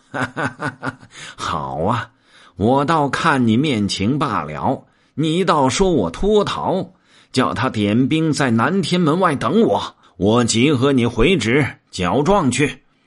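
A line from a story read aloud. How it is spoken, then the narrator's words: Laughing. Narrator (Chinese): 行者笑道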